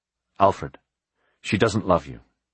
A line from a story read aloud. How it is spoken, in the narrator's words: he said as gently as he could